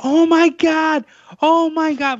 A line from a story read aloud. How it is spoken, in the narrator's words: like screaming